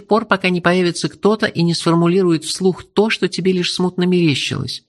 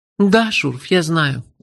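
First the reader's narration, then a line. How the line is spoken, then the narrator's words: Sigh. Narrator (Russian): вздохнула Меломори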